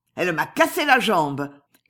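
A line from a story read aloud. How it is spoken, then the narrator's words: Shout. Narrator (French): criait Contenson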